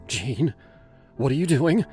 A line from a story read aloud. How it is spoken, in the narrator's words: asked, her voice sharp with fear